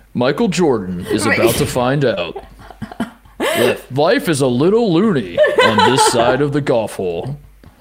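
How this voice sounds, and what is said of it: Slow 1990s movie trailer announcer voice. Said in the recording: “like a slow 90s ... That's an unbelievable 90s announcer voice.”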